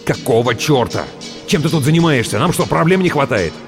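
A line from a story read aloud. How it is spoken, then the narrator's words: Snapping retort. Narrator (Russian): Выдр огрызнулся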